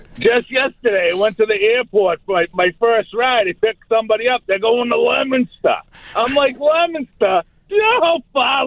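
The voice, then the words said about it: Strong Boston accent. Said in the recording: “with your accent, does anyone say anything? They're like, wow, I'm definitely in Boston now ... a real Bostonian. Accent costs 10 cents more.”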